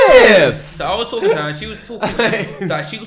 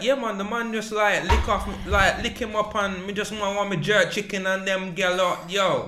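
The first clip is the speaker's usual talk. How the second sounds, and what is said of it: Put-on Jamaican accent. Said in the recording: “I was talking my Jamaican accent ... she was talking back to me in the Jamaican accent”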